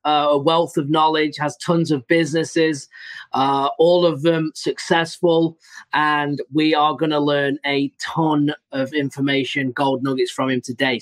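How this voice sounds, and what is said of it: European accent. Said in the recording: “You get this really unbelievable European accent”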